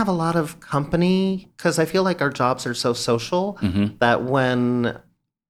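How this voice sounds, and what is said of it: Usual voice. Nothing is said of it.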